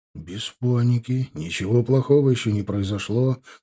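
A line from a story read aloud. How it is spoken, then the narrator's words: Whisper. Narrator (Russian): шепнул я девушке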